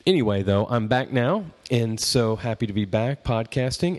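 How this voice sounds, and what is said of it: Slightly hoarse voice from a cold. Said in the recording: “you might even hear my voice is a little bit still the lingering effects of a cold”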